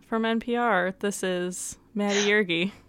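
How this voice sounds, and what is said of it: Public-radio announcer voice. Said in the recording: “this is my radio voice”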